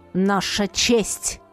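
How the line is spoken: Growl. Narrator (Russian): рыкнул Барс

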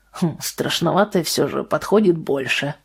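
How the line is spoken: Grumbling mutter. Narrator (Russian): пробурчал Вальтер

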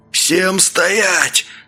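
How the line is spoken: Hoarse strange yell. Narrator (Russian): заорал он хриплым, не своим голосом

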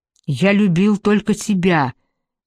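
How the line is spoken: Desperate shout. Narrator (Russian): закричал Дарио, словно криком надеялся разбудить ту, что навеки уснет

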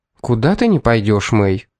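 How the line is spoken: Asked calmly. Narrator (Russian): спокойно спросила Эмили

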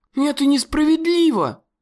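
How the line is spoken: Exclaim. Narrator (Russian): воскликнула Лили

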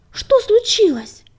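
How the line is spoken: Shout. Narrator (Russian): крикнул он

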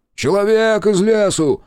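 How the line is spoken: Shouted while running. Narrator (Russian): на бегу крикнул он

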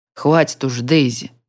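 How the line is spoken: Grumbling. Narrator (Russian): заворчал

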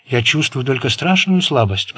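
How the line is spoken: Whisper. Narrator (Russian): прошептал Болан

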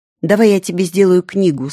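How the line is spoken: Plain. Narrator (Russian): сказал сын

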